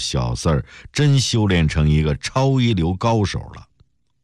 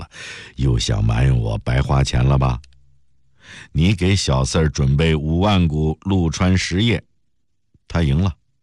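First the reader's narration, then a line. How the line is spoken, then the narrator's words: Laughing. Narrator (Chinese): 陆成伟笑了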